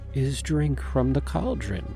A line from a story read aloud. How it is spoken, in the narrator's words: Hawthorne continued, her voice hypnotic